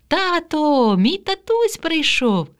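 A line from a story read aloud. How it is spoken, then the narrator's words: Joyful child's shout. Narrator (Ukrainian): Катя радісно кричала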